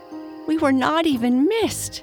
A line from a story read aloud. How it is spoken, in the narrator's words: cried